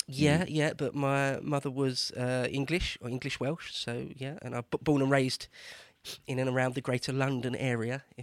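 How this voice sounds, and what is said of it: Mild East London Essex accent. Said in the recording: “It's like East London, Essex kind of way. It's not really considered a very nice accent, I don't think, but it's not too strong”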